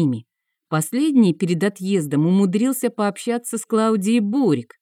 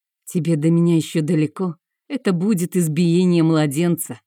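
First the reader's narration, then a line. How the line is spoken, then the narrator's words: Smug snort. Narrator (Russian): хмыкнул лучший боевой маг королевства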